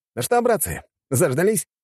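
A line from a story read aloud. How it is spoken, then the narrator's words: Exclaimed. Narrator (Russian): воскликнул он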